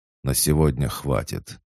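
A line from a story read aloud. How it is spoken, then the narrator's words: Deep sigh, icy tone. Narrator (Russian): Он глубоко вздохнул и ледяным тоном сказал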